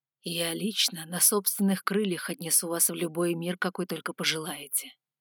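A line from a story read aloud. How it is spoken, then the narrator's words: Velvety voice close by. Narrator (Russian): бархатным голосом ответил Алан, склонившись над моим ухом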